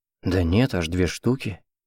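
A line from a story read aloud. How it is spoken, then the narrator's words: Father muttering. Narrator (Russian): бормотал отец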